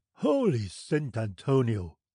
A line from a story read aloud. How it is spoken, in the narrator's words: exclaimed the captain